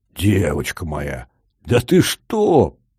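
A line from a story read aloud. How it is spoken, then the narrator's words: Booming. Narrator (Russian): прогудел здоровяк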